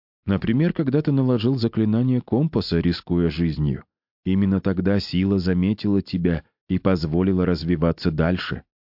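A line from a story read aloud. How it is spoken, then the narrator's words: Plain. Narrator (Russian): ответил отец Иоанн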